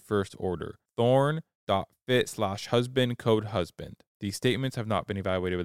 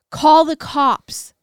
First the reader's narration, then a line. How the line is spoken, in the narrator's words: the voice screamed